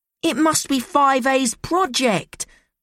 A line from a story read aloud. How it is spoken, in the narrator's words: Nora cried